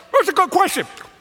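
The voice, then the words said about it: Talking while eating a corn dog. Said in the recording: “That was a great impersonation of a corn dog being eaten while asking a question.”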